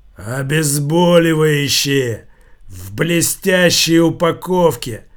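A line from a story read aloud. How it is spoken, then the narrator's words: Giant's growl. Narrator (Russian): прорычал гигант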